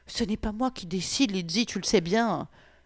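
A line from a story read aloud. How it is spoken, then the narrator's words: Sheepish childish whimpering. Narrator (French): Franz, penaud, pleurnichant vaguement comme un gosse turbulent pris en flagrant délit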